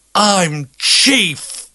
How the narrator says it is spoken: yells the pudgy kid

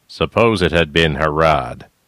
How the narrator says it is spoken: the big black man said, his voice rumbling

